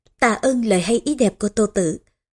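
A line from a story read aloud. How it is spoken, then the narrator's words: Laughing heartily. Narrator (Vietnamese): Triệu Túc Hầu cười vang mà nói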